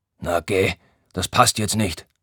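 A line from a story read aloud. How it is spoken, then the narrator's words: Grumbling. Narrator (German): brummt er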